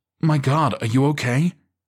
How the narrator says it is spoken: Alex gasped

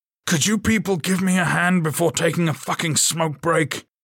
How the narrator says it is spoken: Troy bellowed

